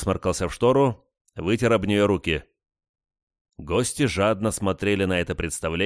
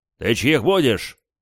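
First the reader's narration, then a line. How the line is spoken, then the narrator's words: Barked, in character. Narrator (Russian): рявкнул я, входя в образ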